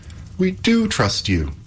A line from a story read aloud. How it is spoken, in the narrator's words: cried Epimetheus and Pandora, both in one breath